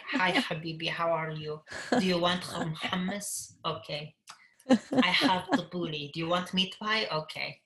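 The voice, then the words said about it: Imitated thick Middle Eastern accent. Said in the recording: “like my dad, he talks with a very thick accent ... they talk like”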